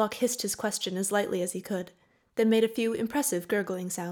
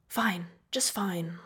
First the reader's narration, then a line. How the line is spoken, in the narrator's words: Locke whispered